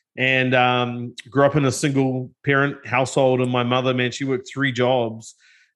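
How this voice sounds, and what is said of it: New Zealand accent. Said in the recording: “I have a pretty funny accent. ... I'm originally from New Zealand.”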